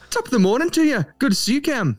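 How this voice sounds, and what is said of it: Irish accent. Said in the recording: “There's the Irish.”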